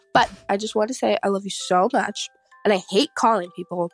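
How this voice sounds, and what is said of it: Slightly congested voice from a cold. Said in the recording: “I'm getting over a little cold, so if I sound a little weird,”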